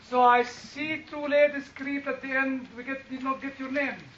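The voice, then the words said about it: Foreign Semitic accent. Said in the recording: “Semitic dialect ... a foreign accent”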